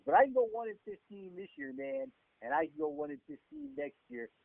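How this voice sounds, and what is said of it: Imitates another person's voice. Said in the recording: “that is the worst John Gruden impression known to man”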